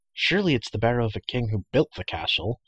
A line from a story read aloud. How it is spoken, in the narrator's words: Terran said in a hushed voice